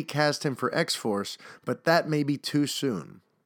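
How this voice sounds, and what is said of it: Usual voice. Nothing is said of it.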